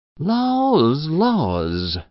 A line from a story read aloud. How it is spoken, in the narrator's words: sighed Mrs